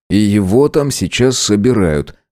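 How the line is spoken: Snorting. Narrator (Russian): хмыкнул я

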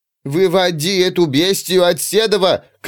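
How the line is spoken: Shouting from behind door. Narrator (Russian): кричала Миланта, спрятавшись за приоткрытой дверью кухни

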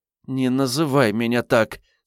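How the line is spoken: Demanding through clenched teeth. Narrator (Russian): сквозь зубы потребовала девушка

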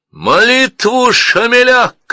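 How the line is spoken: Shouting. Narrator (Russian): крикнул Ильясбек музыкантам

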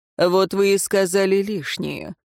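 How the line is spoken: Dry, interrupting. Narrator (Russian): сухо остановил его Динталь

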